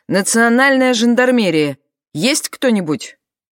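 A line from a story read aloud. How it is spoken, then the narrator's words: Loud, wary. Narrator (Russian): Насторожившись жандарм громко сказала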